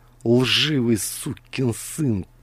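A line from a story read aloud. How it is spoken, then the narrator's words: Angry hiss. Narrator (Russian): прошипел Адамс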